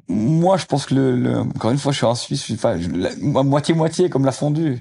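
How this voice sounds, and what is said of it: Slight regional French accent. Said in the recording (French): “il y a un petit accent”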